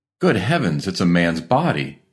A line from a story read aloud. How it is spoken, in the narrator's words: cried excitedly